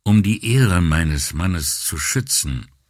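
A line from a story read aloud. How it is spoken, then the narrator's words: Hesitant. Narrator (German): fing sie zögernd an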